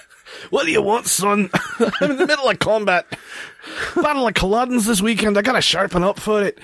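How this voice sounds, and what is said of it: Bad put-on Scottish accent. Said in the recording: “my bad Scottish accent ... I'm terrible”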